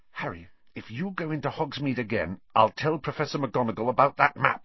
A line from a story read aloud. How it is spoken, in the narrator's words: said Hermione